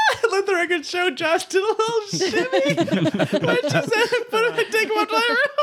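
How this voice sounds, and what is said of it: Usual voice. Nothing is said of it.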